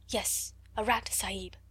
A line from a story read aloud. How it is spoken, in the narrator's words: answered Ram Dass, also whispering